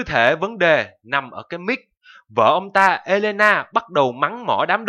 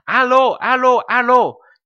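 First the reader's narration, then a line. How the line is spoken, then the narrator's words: Shouting. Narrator (Vietnamese): Nicolae thì hét lên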